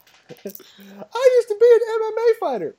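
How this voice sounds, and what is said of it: Squeaky, baby-like put-on voice. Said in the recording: “your terrible squeaky voice ... talking to me with that voice ... baby voice”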